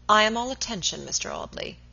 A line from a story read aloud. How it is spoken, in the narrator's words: said coldly